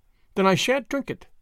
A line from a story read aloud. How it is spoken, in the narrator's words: said Tuppence firmly